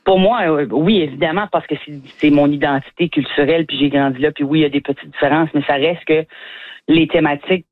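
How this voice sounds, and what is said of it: Acadian French accent. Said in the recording (French): “humoristes acadiens comme vous... mon accent”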